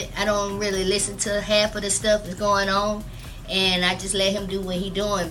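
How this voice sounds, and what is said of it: Strong Southern drawl. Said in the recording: “That Southern drawl is strong, boy.”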